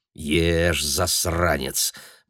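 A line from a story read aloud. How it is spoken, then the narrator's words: Mutter. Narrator (Russian): бормотал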